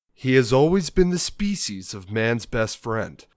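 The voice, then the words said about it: Movie trailer announcer voice. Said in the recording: “my movie trailer voice ... a movie voice”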